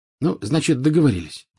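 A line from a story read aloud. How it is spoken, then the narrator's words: Plain. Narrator (Russian): сказал Гарри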